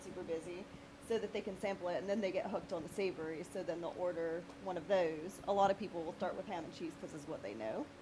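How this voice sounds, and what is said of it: British-sounding accent. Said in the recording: “you sound like a Brit ... She does, right?”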